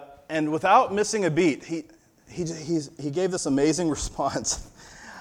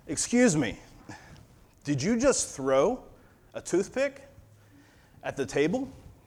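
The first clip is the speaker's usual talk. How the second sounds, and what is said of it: Stern voice. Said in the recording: “in a very stern voice”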